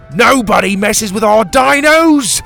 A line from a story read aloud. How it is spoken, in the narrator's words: he shouted